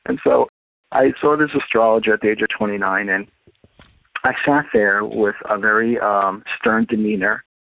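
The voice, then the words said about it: New York accent. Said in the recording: “you probably can tell I'm a New Yorker from my accent, honey.”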